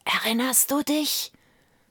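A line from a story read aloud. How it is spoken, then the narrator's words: Whispers one after another. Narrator (German): flüsterte einer nach dem anderen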